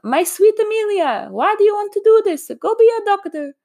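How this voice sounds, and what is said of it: Deliberately bad Italian accent. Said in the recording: “my horrible Italian accent”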